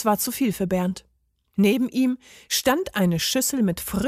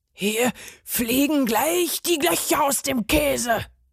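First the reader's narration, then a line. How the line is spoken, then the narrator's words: Furious roar. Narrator (German): brüllte der Parmesan fuchsteufelswild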